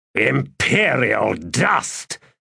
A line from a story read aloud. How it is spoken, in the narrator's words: he said in a growl